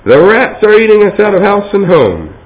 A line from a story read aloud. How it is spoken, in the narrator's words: cried an angry woman in the crowd